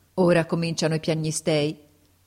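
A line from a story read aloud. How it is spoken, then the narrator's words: Prince's declamatory tone. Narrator (Italian): disse il principe in tono declamatorio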